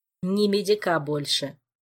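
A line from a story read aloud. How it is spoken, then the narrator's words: Cold, categorical statement. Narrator (Russian): по-прежнему холодно и категорично заявил первый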